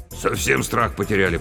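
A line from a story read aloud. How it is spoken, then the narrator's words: Grumbling. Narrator (Russian): проворчал Батяня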